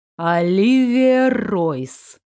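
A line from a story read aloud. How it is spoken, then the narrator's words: Slow drawl. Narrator (Russian): медленно протянул король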